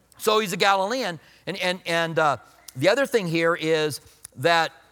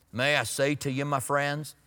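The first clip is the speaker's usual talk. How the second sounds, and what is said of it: Country-voiced J. Vernon McGee impression. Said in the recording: “J. Vernon McGee had that really country voice”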